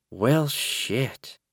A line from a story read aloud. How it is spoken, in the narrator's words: said softly